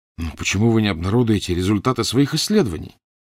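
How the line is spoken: Exclaiming. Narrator (Russian): воскликнул Фандорин

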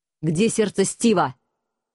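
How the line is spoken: Menacing question. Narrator (Russian): грозно спросил Алекс

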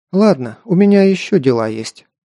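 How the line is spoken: Sigh. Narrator (Russian): вздохнула Аманда

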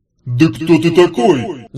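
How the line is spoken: Yelling. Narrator (Russian): заорал джин

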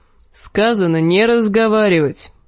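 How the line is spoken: Grumbled. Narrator (Russian): проворчал гребец

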